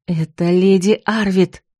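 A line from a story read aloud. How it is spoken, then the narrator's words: Gloating hiss. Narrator (Russian): зашипела злорадно Марго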